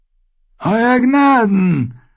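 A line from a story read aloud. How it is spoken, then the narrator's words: Called out. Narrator (German): rief Lord Waldorob zu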